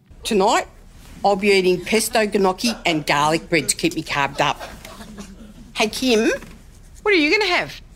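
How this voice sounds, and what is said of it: Sharon Strzelecki's thick Australian accent. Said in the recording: “Magda Sabansky's iconic Kath and Kim character, Sharon Strzelecki, the overly enthusiastic netballer with a thick Australian accent”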